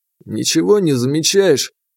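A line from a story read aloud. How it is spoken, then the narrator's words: Sighing. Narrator (Russian): Я вздохнул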